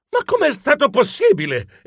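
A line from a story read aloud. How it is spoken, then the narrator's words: Exclamation. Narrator (Italian): esclamai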